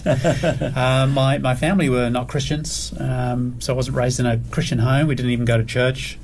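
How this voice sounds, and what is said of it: Mixed British, New Zealand, Australian accent. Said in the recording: “I live in Australia now, but I was born in the UK, raised in New Zealand, and then moved to Australia about 13 years ago. ... A scrambled accent.”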